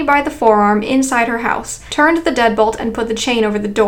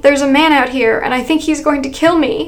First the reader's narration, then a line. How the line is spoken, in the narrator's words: I cried